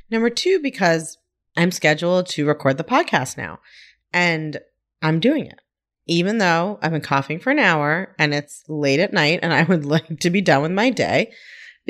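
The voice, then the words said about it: Weird-sounding voice after coughing. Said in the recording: “I sound a little weird,... I got a coughing fit of some kind... I've been coughing for like an hour... if I sound weird, that's why”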